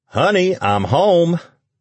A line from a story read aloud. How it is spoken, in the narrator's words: Lucas called out